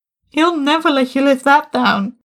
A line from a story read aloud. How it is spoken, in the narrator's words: Tim called out from his desk